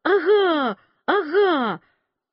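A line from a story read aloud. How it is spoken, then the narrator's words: Excited shouting. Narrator (Russian): Клавдия кричала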